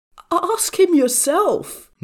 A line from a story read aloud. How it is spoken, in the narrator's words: Niu Hui Song spluttered